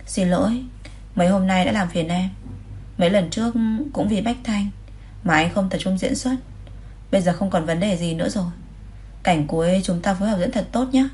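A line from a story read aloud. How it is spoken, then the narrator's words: Smiling. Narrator (Vietnamese): Lê Tinh Thành mỉm cười nói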